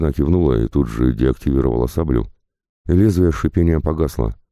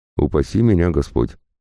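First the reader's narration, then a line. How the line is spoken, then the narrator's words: Snort. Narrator (Russian): хмыкнул Гинца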